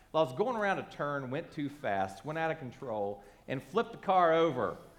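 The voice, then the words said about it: Slight Appalachian accent. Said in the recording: “If you can't tell by the accent, I've got a touch of hillbilly going on there.”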